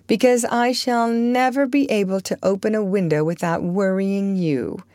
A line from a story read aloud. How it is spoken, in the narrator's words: rejoined, laughing also